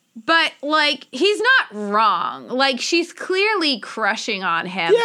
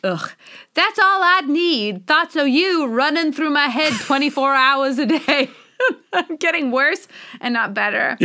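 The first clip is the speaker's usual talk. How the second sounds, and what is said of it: Put-on character accent. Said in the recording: “Should I do the accent again? I can't help myself.”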